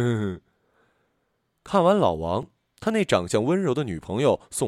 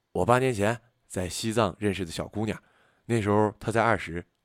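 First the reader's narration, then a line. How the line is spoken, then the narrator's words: Gentle. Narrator (Chinese): 老王柔声说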